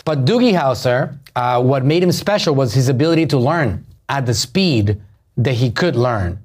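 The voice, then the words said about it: Strong Puerto Rican accent. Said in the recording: “I'm Puerto Rican and my accent is terrible”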